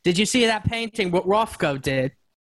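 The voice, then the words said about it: Put-on British accent. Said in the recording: “this lyric is the peak quintessential Britishness thing... the British vernacular... you should just do this line in that accent”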